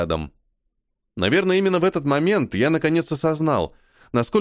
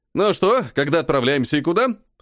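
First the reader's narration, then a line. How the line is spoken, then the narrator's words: Cheerful question. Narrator (Russian): Бодро спросил подошедший последним Толик с довольной физиономией обожравшегося сметаной кота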